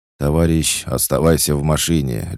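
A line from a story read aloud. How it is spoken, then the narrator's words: Bark. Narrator (Russian): рявкнул Петр на шатающегося Серегу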